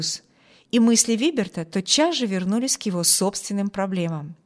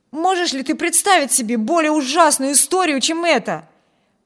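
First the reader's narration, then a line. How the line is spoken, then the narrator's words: Exclaiming. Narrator (Russian): воскликнул младший Тревор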